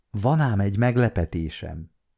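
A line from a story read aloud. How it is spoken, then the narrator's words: Whisper in ear. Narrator (Hungarian): súgta a fülébe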